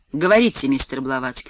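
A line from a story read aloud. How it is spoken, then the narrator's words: Weary reply. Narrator (Russian): устало отзывается он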